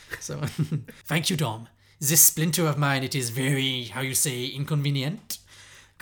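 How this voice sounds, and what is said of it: Exaggerated put-on French accent. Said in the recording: “This is my French accent, my favourite accent to do. You know I love a French accent. ... Can you do a French accent without going, how you say?”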